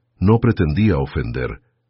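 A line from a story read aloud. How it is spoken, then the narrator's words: Sullen tone. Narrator (Spanish): dijo Worthington finalmente, con tono huraño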